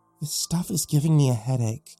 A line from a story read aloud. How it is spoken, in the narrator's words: she moaned